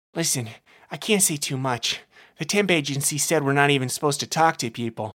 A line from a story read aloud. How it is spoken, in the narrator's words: the barkeep said, nervously